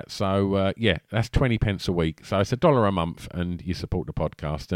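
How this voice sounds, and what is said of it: Essex accent with a lisp. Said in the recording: “my annoying Essex lispy twang.”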